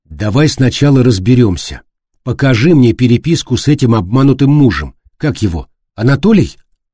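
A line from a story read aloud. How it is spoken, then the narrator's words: Firm commanding voice. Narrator (Russian): Он твердым голосом велел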